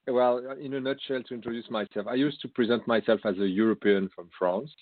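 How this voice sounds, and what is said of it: French accent in English. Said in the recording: “as you can hear in my accent, I have a French background. I'm trying to I'm trying to hide it as much as possible.”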